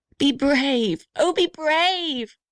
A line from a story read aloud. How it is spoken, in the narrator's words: shrieked the little red house